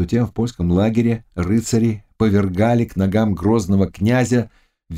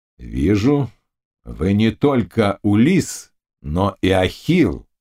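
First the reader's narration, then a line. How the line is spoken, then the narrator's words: Plain. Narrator (Russian): сказал князь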